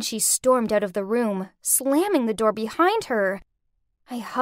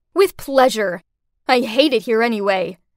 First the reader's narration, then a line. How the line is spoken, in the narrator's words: snarled back